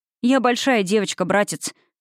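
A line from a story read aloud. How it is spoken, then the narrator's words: Snapping retort. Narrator (Russian): огрызнулась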